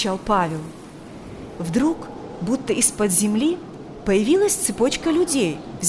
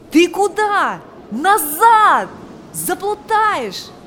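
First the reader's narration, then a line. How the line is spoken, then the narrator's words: Shouting. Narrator (Russian): кричал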